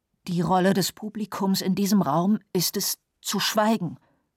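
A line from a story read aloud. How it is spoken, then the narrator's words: Angry trembling old voice. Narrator (German): Der Verteidiger wurde zornig ... sagte mit seiner zitternden Altherrenstimme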